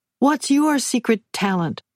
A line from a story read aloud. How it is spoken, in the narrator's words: I shouted to Sebastian